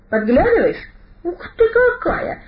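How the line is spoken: Exclaimed. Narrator (Russian): воскликнул он

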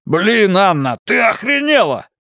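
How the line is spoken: Yelling. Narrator (Russian): заорал он

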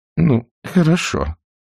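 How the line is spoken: Helpless mumble. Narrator (Russian): беспомощно пробормотала тетушка Питтипэт, как всегда пасуя перед более сильным, чем у нее, характером

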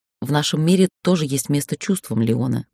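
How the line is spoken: Unexpectedly soft. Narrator (Russian): сказала она неожиданно мягко

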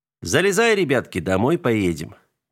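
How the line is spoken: Cheerful proclamation. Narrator (Russian): весело провозгласил он

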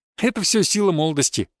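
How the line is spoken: Dismissive chuckle. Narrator (Russian): хмыкнул я на их претензии

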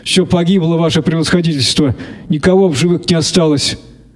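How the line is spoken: Tearful voice. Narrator (Russian): сказал плачущим голосом

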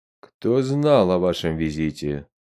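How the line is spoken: Stern question. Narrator (Russian): строго спросил посла Чад Каншун

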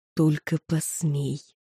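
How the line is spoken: Barely audible gleeful hiss. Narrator (Russian): прошипел едва слышно Сагрус, искренне наслаждающийся ситуацией

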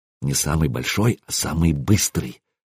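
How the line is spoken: Very quiet. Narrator (Russian): совсем тихо произнес Оспак Парус

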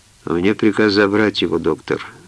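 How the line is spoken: Dry tone. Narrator (Russian): сухо произнес он

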